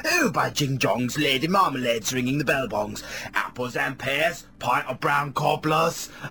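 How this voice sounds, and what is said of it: Put-on British working-class accent. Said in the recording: “British man. Can't you hear it in my accent? That's how us Britishers talk ... that's how us British working class people talk ... I'm a British man, can't you tell by my accent?”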